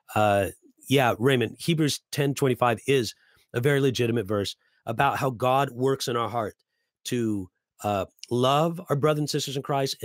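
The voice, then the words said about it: Strained, struggling voice. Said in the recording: “my voice is kind of having a tough time today”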